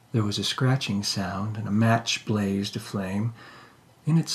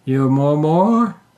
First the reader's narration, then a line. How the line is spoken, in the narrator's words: said Grator, and laughed